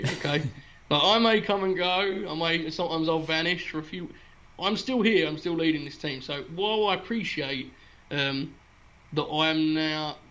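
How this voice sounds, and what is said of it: British accent. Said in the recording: “the other Brits that are on this team ... accent definitely makes him sound 10 IQ points higher”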